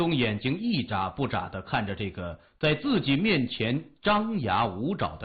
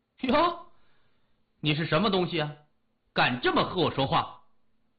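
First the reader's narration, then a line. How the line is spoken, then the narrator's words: Furious indignant shout. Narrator (Chinese): 老师觉得自己的尊严被挑战了，恼羞成怒，大声叫喊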